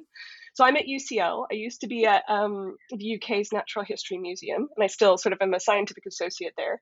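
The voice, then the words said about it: Californian American accent. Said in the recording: “from my accent, people can probably tell that I don't belong in the town that I live in now, which is London ... I actually come from California”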